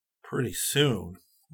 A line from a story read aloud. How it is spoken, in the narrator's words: Rick muttered